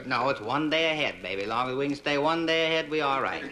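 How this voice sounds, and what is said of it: Hard-to-place accent. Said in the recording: “there's something about your accent... you're not Mexican, really, are you?”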